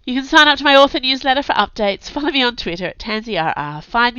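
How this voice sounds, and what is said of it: Hoarse, congested voice. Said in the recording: “Sorry for my voice. I have a cold at the moment, and I think it's gone to my lungs”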